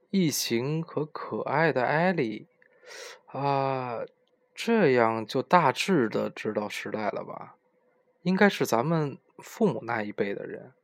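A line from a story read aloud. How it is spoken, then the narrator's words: Murmuring. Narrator (Chinese): 敦也喃喃道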